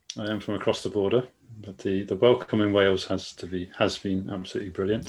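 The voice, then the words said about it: Devon English accent. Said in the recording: “a bit of a funny accent? He speaks a little bit differently to the rest of us... I'm a Devon boy”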